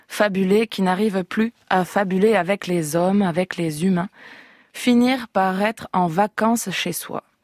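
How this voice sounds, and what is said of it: Reading with a regional French accent. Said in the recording (French): “Est-ce que vous accepteriez de le lire avec l'accent, évidemment ?”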